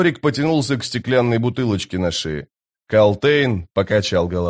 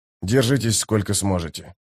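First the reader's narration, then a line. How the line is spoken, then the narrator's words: Whisper. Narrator (Russian): прошептал Дукер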